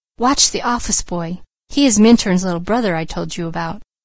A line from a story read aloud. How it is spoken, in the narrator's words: Douglas whispered